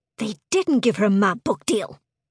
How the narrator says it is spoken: snapped Cheryl Jackson

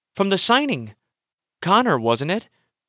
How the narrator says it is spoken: gasped

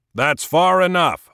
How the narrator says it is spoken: I shouted

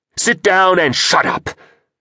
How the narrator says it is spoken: shouted Hakim, and the speakers delivered his roar as though God himself had issued this demand

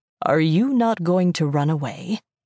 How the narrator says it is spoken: asked me, his voice still calm

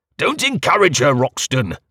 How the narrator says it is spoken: snapped Valentine

